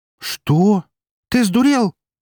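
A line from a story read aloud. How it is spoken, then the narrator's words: Exclaimed. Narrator (Russian): одновременно со мной воскликнула Эри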